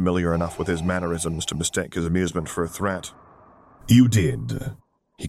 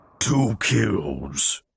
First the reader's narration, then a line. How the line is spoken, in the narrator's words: she muttered